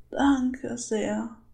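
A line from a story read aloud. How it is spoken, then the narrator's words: Frightened old woman sobbing. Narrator (German): brachte die alte Dame noch immer erschrocken und schluchzend hervor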